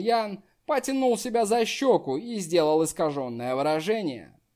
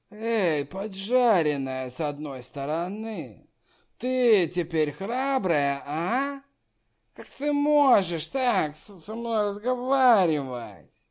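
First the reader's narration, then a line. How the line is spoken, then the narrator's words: Drunken taunting. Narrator (Russian): Хань Инсюэ была нетрезвой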